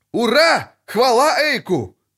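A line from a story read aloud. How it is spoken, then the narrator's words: Shout from crowd. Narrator (Russian): крикнул кто-то из группы лучников Недомира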